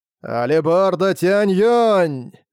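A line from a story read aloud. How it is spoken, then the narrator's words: Low roar. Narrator (Russian): Низко проревел Тянь-Юнь-Зы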